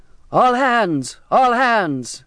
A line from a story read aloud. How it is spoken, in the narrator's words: shouting